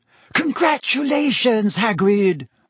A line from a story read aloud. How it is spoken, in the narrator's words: Hermione squealed